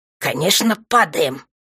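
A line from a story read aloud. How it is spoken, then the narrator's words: Angry snarl. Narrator (Russian): зло ощерился Рогрик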